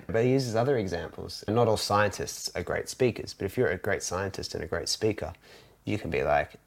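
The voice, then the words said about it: Australian accent. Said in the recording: “got this Aussie accent that a lot of people seem to like”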